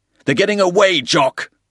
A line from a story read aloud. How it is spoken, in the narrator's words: He shouted